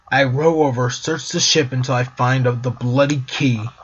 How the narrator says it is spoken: he answered angrily

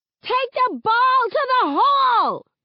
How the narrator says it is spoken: She hollers to the girls

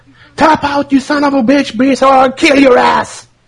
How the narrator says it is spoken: he yelled at him

